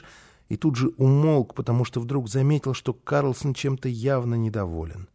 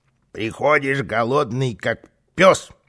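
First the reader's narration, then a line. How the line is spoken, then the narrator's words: Grumbling. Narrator (Russian): ворчал Карлсон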